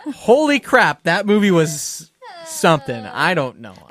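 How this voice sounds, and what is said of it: Usual voice. Nothing is said of it.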